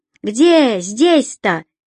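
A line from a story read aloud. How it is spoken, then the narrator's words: Woman's shout. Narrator (Russian): выкрикнул женский голос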